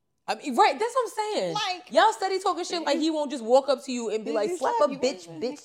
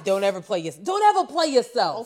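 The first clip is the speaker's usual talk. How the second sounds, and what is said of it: Imitates another person's voice. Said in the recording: “In my DJ Khaled voice.”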